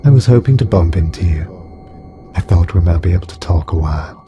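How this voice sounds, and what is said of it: Soft, musical, alien female voice. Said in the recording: “Her voice was soft and musical, yet strangely alien.”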